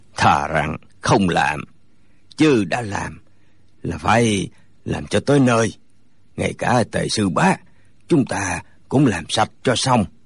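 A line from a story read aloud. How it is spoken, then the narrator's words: Hoarse voice. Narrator (Vietnamese): Lại một người nữa cất giọng khàn khàn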